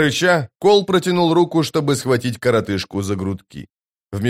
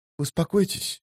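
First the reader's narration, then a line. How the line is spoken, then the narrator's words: Whispering. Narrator (Russian): прошептал он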